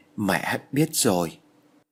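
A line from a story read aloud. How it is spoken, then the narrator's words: Trembling voice. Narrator (Vietnamese): Vân run rẩy nói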